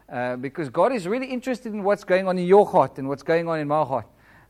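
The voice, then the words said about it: Flat non-British accent. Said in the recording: “I've got quite a flat accent ... I can't speak up there like some of the British people speak beautiful English. I speak like flat”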